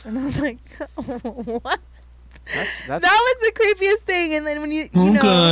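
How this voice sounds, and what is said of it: Usual voice. Nothing is said of it.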